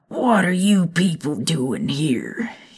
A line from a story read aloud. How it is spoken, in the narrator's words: he bellowed, slamming the front door behind him